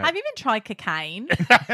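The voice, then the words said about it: Put-on Australian accent. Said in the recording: “I have a pretty good Australian accent.”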